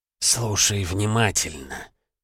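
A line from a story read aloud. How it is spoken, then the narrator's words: Strange snake-like hiss. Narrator (Russian): раздался странный голос, напоминающий шипение змеи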